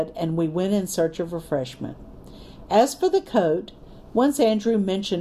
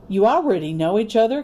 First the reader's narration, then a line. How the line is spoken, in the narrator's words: Captain Parker said cheerfully